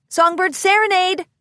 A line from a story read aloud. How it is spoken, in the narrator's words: some ponies shouted from the outside door